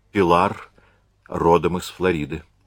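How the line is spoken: Soft. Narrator (Russian): сказал он мягко

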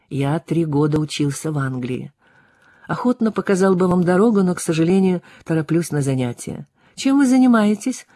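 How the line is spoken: Direct simple questioning tone. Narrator (Russian): Спросила она тем же прямым простым тоном, каким спросила вчера его имя

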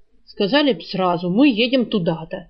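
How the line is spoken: Angry grumble. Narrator (Russian): сердито проворчал Жар

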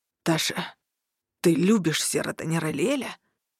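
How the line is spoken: Hoarse question. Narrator (Russian): Сипло вопросил

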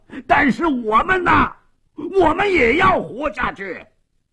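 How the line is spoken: Hoarse desperate shouting. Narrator (Chinese): 斯帕索耶 冲着门外声嘶力竭地喊着

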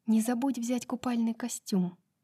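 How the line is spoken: Whisper. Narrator (Russian): прошептала она

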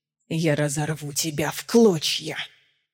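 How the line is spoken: Hissing. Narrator (Russian): шипел Эраван

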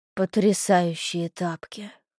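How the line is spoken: Breathless exhale. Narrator (Russian): Выдохнула Улька

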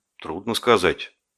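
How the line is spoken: Uncertain mutter. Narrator (Russian): неуверенно пробормотал я

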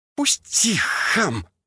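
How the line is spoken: Bird-like hiss. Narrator (Russian): прошипела она, в точности, как эта птица

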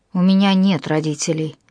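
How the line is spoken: Calm. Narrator (Russian): спокойно сказал

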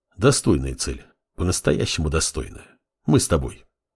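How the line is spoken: Relieved sigh, commanding. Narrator (Russian): Синзи облегченно вздохнул и скомандовал

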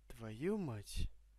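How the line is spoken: Quiet groan. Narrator (Russian): тихо простонал я

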